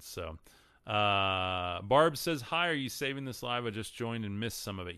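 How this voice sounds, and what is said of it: Texan accent. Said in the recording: “I'm from Texas. Sorry, my accent screws up a lot of these words.”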